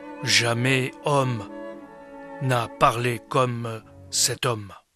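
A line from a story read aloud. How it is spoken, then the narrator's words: Solemn group reply. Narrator (French): Ils répondirent d'un ton solennel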